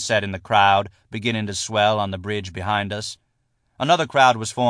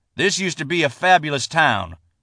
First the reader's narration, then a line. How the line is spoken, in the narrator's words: John Harden shouted, appealing to what he supposed to be the sheriff's shared sense of nostalgia